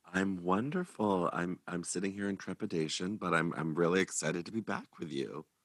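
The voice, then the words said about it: Husky early-morning voice. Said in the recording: “morning sexy voice”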